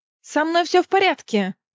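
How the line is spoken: Shouted. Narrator (Russian): крикнула

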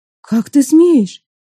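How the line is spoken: Indignant shout. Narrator (Russian): в негодовании крикнула, осознав, он не шутит

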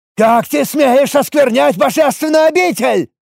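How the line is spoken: Priest roaring. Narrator (Russian): Взревел жрец

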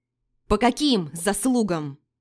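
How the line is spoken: Yelling. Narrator (Russian): заорала я

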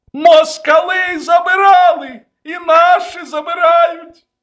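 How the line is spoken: Yelling. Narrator (Russian): завопил

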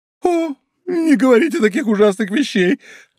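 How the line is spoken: Exclaimed, bursting into sobs. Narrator (Russian): воскликнула прокурорша, раздражаясь рыданиями

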